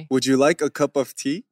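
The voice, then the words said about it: Weak attempt at English accent. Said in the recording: “can you do the English accent ... It sounds so weird. ... It sounds like Saturi. I can do it better.”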